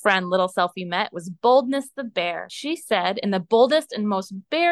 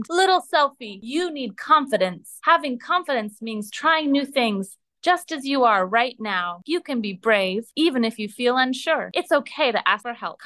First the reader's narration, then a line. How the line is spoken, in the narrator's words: In the most confident and liony voice you've ever heard, he boomed